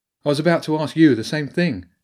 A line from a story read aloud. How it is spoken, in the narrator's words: Annabelle said sharply